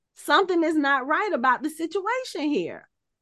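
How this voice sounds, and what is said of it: Sung imitation of a singer's voice. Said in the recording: “I'm singing in my Keith Sweat voice.”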